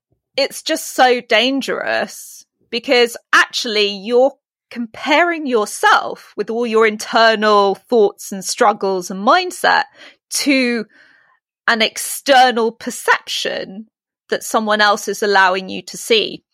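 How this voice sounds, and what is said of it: British accent. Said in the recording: “In my British accent, obviously.”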